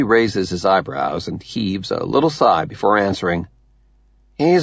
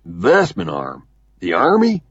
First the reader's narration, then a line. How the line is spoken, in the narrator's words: Cantrell blurts